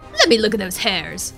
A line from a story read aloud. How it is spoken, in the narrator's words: the queen said suddenly in a suspicious tone